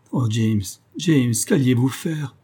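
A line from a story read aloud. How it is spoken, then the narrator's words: Actress sobbing. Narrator (French): sanglotait l'actrice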